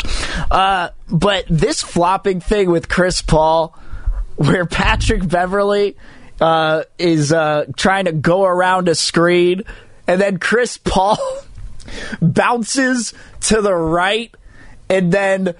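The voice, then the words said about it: Hoarse, partly lost voice. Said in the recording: “my voice is a little bit out ... somebody who actually has their entire voice”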